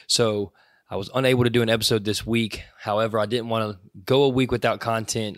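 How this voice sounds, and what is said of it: Weak, recovering voice. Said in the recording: “I lost my voice, and it's now Sunday afternoon, and I'm just barely getting it back”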